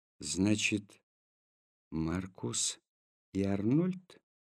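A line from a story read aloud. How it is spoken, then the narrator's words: Quiet question. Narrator (Russian): тихо спросил Петр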